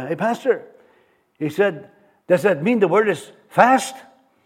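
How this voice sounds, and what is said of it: Put-on French accent. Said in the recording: “he's got this really French accent ... I like to copy French people”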